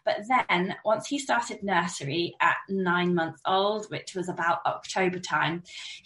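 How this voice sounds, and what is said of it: Slightly croaky voice from a cold. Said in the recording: “I don't know if you can tell from my voice, but I'm still a bit croaky from this 2 week cold.”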